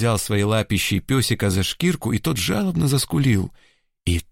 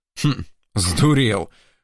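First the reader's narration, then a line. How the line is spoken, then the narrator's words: Calmer, faintly approving grunt. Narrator (Russian): хмыкнул мичман уже спокойнее и вроде как с нотками одобрения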